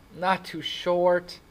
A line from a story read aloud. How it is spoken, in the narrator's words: I begged